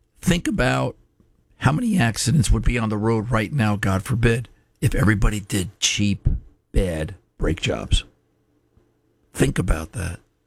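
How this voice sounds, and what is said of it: Hoarse, weakened voice. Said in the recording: “lost my voice”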